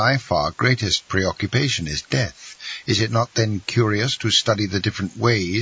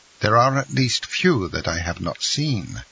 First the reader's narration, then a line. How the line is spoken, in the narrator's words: said the Count coldly